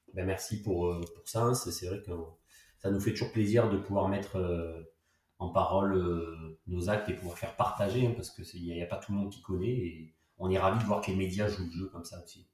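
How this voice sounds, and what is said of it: Sing-song Marseille French accent. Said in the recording (French): “tu es bel et bien marseillais ... le fameux accent chantant, chaleureux”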